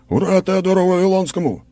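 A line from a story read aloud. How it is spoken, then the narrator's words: Crowd shouting in unison. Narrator (Russian): крикнули мне в ответ два десятка глоток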